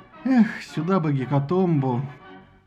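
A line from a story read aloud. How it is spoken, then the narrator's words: Dreamy sigh. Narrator (Russian): Посейдон вздохнул и мечтательно произнес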